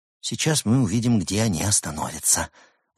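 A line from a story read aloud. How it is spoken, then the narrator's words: Excited whisper. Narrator (Russian): возбужденно прошептал Марк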